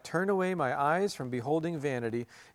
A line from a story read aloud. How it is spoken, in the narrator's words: the pilgrims put their fingers in their ears and cried out